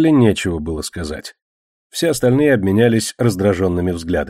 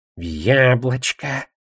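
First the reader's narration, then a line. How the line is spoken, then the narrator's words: Reverent whisper. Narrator (Russian): с благоговением шепнул гоблин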